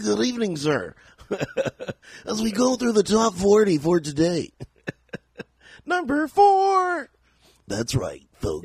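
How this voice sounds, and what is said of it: Radio announcer voice. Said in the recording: “The radio voice.”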